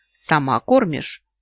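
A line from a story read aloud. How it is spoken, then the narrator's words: Stern question. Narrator (Russian): строго спрашивает у меня Изикхон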